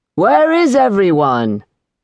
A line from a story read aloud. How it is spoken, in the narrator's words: Simon shouted